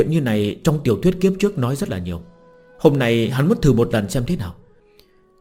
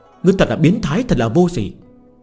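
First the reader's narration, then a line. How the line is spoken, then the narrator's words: Stern loud shout. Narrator (Vietnamese): nghiêm mặt bịt mặt quát lớn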